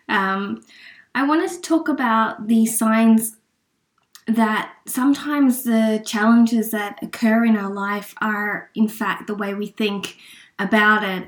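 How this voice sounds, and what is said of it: Sick-sounding voice from a cold. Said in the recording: “sorry about my voice, I'm in a bit of a cold state”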